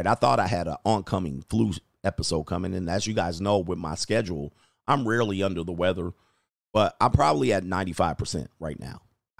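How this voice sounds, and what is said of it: Slightly affected, sick-sounding voice. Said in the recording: “my voice is a little affected”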